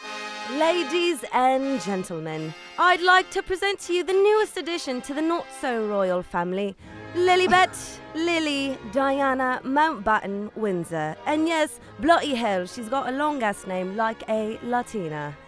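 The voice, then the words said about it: Put-on British accent. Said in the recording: “your British accent? ... te sale bien perrón.”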